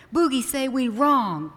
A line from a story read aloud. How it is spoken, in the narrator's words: cried Unga